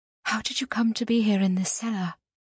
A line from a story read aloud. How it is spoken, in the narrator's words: said very quietly